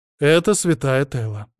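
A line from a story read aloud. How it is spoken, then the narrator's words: Snide, grinning introduction. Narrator (Russian): представила ехидно ощерившаяся Иоланта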